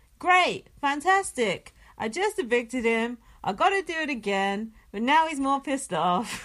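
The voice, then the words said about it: Imitates another person's voice. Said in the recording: “That's a good impression. ... It's quite easy to do an impression of Paul.”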